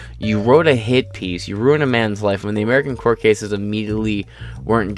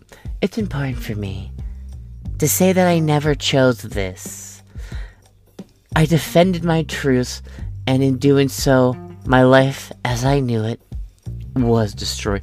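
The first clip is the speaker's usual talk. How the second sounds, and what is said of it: Imitates another person's voice. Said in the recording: “My impression of her is, a tolerable version of my Pelosi”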